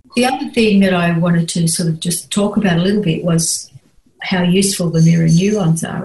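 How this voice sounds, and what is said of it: Australian accent. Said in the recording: “that Australian accent sometimes”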